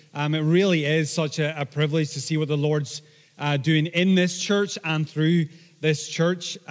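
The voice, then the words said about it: Blended Northern Irish and Scottish accent. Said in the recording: “my accent's slowly becoming a blend of, if you like to think of it this way, the actor's Liam Neeson ... And Ewan McGregor”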